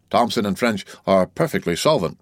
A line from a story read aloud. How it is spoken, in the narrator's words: replied Danglars, with an almost mocking smile